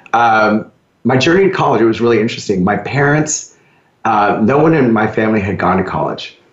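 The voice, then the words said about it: Slightly hoarse voice. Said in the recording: “I'm fighting a little bit of a cold, so pardon if I sound a little bit hoarse.”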